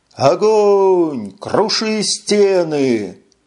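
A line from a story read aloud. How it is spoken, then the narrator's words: Wild ecstatic yell. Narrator (Russian): Заорал в диком восторге и неистовом запале Джил Ли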